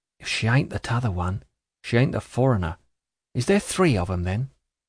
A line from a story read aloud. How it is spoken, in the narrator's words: he hoarsely whispered Charlie